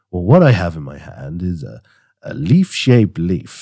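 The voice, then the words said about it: Put-on radio announcer voice. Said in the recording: “I was trying to do my best radio voice.”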